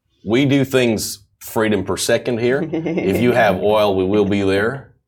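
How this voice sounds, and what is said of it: Put-on American accent. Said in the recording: “that is the American accent.”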